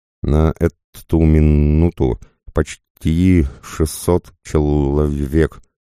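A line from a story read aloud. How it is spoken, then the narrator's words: Plain. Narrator (Russian): ответил Кузьма Кузьмич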